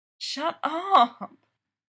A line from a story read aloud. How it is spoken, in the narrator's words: She moans back